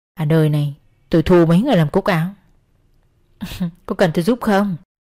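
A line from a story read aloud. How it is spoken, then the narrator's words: Whispering. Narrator (Vietnamese): Miệng nàng thì thầm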